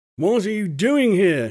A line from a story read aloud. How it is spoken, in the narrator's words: roared